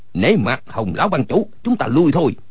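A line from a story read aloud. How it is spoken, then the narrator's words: Calling out. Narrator (Vietnamese): bèn kêu lên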